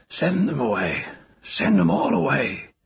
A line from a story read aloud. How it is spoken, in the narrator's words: Ogion growled from his pallet